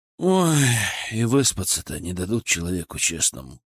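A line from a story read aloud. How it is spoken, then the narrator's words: Grumbling mutter. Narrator (Russian): пробурчал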